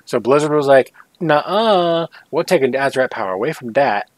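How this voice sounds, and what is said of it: Briefly puts on an accent. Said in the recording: “doing that in that accent”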